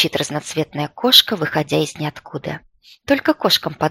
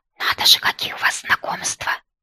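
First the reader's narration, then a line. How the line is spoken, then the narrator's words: Quiet. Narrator (Russian): тихо произносит Пятняков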